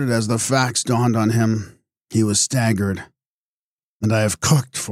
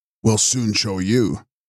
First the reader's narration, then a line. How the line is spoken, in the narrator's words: growled Mueller